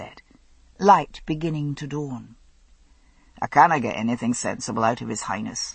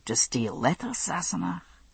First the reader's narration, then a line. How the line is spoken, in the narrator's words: Jamie said calmly